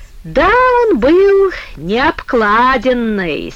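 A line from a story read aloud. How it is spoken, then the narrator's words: Quick giggle, cut short. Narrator (Russian): Серафима дробненько хихикнула и тут же оборвала себя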